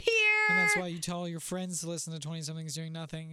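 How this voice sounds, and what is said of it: Low, strained sick voice. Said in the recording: “how low yours is because you're sick ... I'm like getting lower and lower because it hurts more and more”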